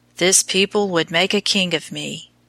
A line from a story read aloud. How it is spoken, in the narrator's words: said sadly